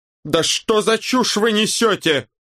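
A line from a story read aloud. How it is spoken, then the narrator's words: Yelling. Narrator (Russian): заорал Локи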